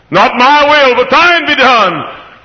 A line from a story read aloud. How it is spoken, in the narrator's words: cried the Father's own Son as he knelt neath the old olive trees